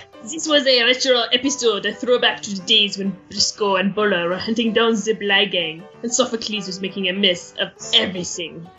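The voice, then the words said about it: Bad put-on French accent. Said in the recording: “Can I read an accent?... The French accent?... The bad, bad French accent?... your best Frenchy Bear Paw impression”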